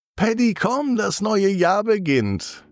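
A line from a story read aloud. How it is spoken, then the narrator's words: Mother calling. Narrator (German): Und Mama ruft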